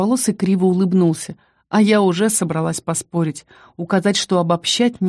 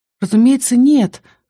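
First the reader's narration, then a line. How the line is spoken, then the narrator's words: Breathed out. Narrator (Russian): выдохнула я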